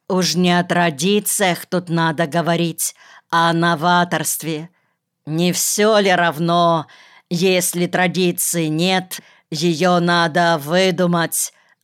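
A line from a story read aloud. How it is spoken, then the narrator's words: Exclaimed. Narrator (Russian): воскликнул Боря Хавкин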